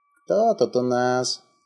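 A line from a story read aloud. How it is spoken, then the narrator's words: Creaky. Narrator (Russian): проскрипела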